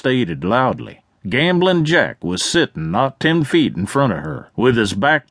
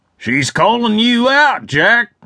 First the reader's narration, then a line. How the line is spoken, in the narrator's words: somebody shouted